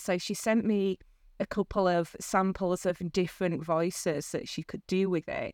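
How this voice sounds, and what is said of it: Broad Northern English accent. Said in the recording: “I've also got a very broad Northern accent”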